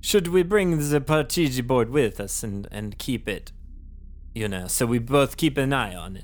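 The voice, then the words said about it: Italian-sounding accent. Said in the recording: “When did you turn into an Italian? ... Is my accent. I have a cold.”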